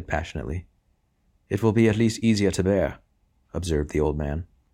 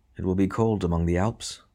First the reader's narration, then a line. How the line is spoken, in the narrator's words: murmured Percy